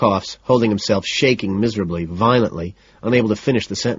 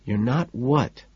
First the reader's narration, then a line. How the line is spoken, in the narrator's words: ask softly